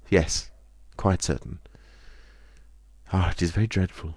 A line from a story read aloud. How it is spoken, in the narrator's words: She sighed and said